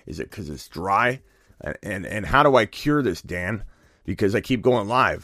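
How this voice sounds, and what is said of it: Heavy breathing, losing his voice. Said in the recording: “You can tell I'm breathing heavy in right now... Is it the loss of voice? Tell me what's going on with my voice right now. Why am I out of breath because I'm losing my voice?”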